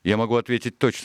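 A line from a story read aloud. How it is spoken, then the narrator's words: Plain. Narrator (Russian): сказал доктор Ливси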